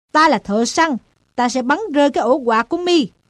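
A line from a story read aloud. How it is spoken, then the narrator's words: Loud shout. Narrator (Vietnamese): Nó quát to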